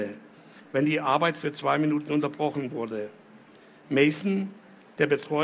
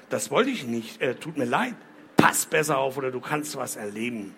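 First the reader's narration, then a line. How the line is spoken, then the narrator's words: Growl. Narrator (German): knurrte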